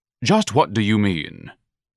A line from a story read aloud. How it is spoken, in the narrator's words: Ignatius asked haughtily